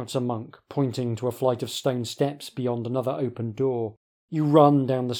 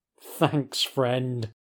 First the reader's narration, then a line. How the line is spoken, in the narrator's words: laughs mockingly